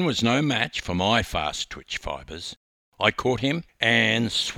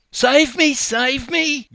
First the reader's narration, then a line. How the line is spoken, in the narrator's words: Glenn screamed